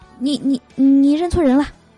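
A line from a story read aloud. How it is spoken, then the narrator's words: Stammering. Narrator (Chinese): 那个男生结结巴巴的说了一句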